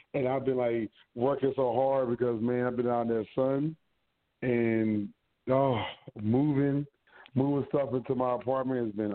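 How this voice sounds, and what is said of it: Hoarse, strained voice. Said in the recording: “lost my voice. Um, yeah, I was I was yelling”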